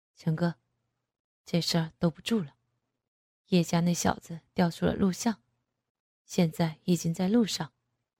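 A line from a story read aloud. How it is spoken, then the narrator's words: Lowered voice. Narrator (Chinese): 便压低了声音说道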